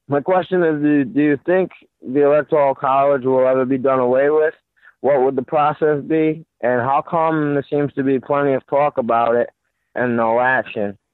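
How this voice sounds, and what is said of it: Rhode Island accent. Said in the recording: “is that a Rhode Island accent that I was hearing?”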